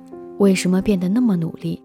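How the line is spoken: Plain. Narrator (Chinese): 黑子答道

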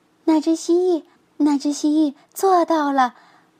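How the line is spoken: Excited shout. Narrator (Chinese): 亚历山大叫起来

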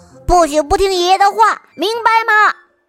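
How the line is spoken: Roaring. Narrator (Chinese): 卢卡大吼一声

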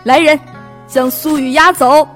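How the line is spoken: Sinister shout. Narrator (Chinese): 王宇阴喊着说

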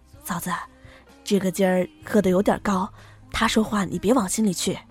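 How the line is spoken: Soft voice. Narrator (Chinese): 轻声说

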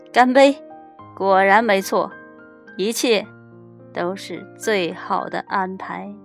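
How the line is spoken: Laughing, loud clear voice. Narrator (Chinese): 国王忍不住哈哈大笑，朗声说

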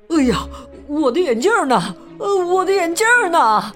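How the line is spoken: Young man's voice. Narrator (Chinese): 声音是那位年轻男士发出的

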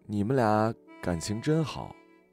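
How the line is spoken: Sighing remark. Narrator (Chinese): 阿紫像是感叹了一句

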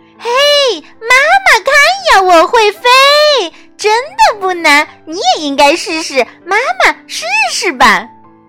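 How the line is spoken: Calling out. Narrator (Chinese): 小皮普呼喊道

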